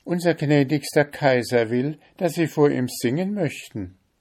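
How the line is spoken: Little cook calling loudly. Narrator (German): rief die kleine Köchin ganz laut

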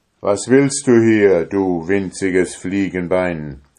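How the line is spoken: Thundering booming shout. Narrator (German): rief der mit einer Stimme, als wenn's von allen Seiten donnerte

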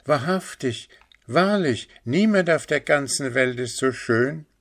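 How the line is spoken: Crowd calling out. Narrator (German): eine große Schar Bürger rief

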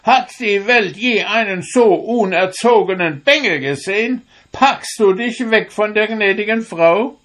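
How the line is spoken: Angry old woman calling. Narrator (German): wurde die Alte recht böse, indem sie rief

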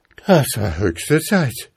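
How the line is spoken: Breathless boy calling. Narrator (German): rief der Junge atemlos

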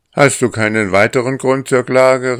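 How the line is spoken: Called out. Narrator (German): rief er

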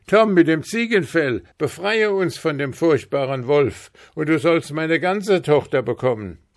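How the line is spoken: King shouting. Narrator (German): Der König schrie

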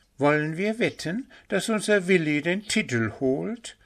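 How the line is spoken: Whispered. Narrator (German): raunte das Rehpünktchen Puh zu

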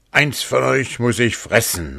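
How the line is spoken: Calling out. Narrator (German): rief

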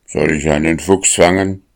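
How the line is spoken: Angry barking. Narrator (German): bellte er böse

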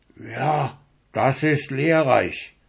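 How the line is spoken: Murmuring portrait. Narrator (German): murmelte des Urgroßvaters Bild

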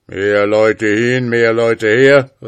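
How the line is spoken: Ghost calling out. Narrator (German): rief der Geist

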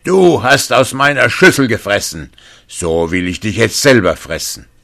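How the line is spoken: Furious shouting. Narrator (German): rief er wütend

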